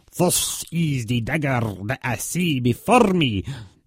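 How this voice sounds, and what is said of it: Put-on Scottish accent. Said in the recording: “It took me a while to do the Scottish accent, but I think I've got it down quite good now.”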